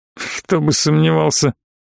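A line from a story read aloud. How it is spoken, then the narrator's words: Grumbling. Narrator (Russian): проворчал князь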